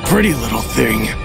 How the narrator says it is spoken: he sneered

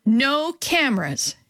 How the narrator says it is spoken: she yelled

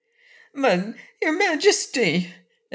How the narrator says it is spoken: exclaimed Corporal Waddle in protest

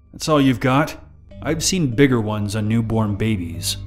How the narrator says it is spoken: Maybe I should have just laughed and said

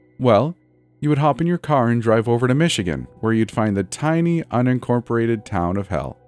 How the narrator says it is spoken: Lucy said with a laugh

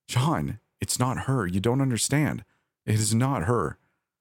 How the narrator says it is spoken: said, my voice breaking

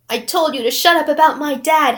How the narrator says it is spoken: Harry yelled

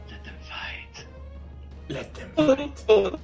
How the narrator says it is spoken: someone whispers

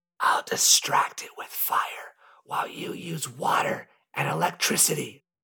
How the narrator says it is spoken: Super Zacky whispered

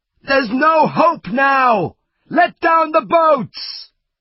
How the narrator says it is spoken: someone shout

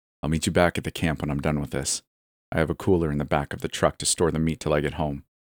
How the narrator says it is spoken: he said

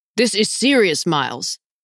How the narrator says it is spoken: Teddy barked

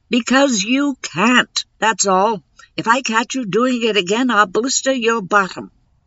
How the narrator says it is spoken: she'd wind up screaming

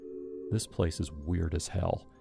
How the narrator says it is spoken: he said quietly

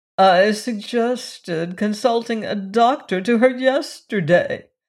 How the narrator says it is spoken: moaned Mrs

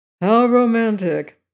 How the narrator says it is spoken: said Madame Story dryly

